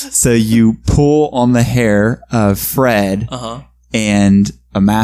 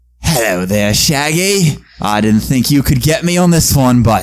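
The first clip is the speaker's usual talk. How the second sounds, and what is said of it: Put-on Australian accent. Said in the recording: “it's the same Australian accent”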